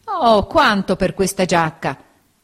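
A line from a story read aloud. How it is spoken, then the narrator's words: Old man exclaiming. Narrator (Italian): esclamò il vecchio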